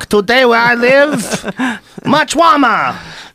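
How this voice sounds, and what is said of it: Bad put-on Chinese accent. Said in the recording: “terrible accents, both of us. ... To go super Chinese or just weird?”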